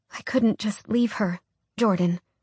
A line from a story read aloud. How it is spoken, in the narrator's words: she said quietly